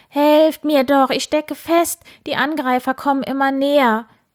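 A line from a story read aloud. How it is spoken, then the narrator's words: Shouted. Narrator (German): Wildi schrie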